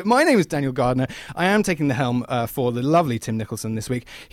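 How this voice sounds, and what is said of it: English accent. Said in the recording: “the English accent is back”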